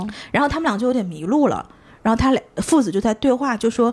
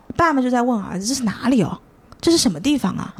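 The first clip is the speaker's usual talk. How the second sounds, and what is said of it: Imitated heavy Nanchang accent. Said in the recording (Chinese): “南昌口音是一听就能听出来的 ... 你这个口音是 ... 点重的 ... 有点感觉的，有点感觉”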